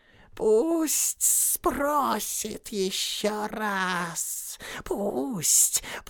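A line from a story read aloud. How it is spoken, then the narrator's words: Hissed. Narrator (Russian): прошипел Голлум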